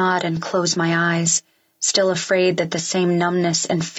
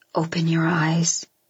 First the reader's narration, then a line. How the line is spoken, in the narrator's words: he says gently